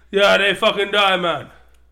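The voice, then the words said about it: Put-on Jamaican accent. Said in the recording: “Now you're Jamaican.”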